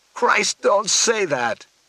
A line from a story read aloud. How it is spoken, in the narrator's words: begged